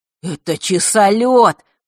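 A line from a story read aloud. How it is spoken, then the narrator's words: Excited explanation. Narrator (Russian): взволнованно пояснил Маар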